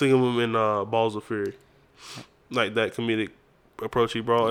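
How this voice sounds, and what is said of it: Usual voice. Nothing is said of it.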